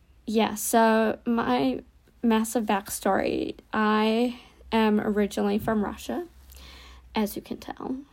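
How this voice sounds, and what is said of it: American-sounding accent. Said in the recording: “I sound American”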